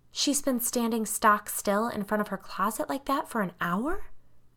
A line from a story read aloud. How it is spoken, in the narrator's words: breathed